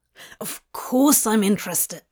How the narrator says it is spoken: Crowley hissed

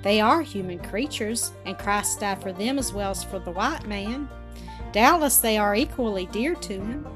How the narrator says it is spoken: Kenneth answered with gentle gravity

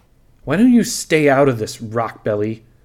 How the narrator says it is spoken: He sneered at Isla

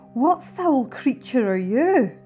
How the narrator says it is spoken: I cried

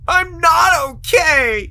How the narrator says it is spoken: he screamed depressedly

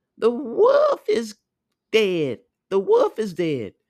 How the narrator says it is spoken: the seven kids ran up to the well and cried aloud

